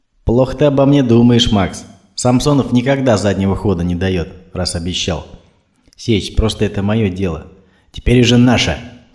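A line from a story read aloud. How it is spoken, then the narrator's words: Stern interruption. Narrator (Russian): строго перебил его Самсонов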